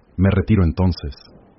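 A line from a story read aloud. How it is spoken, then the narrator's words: Cold tone. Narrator (Spanish): dijo en tono frío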